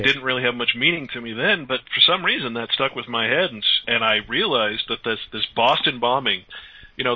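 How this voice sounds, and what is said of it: American accent. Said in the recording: “my horrible American accent”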